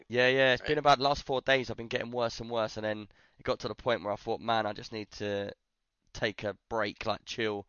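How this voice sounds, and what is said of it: Croaky, slightly hoarse voice. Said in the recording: “I've actually been ill all day ... My voice is a bit croaky though.”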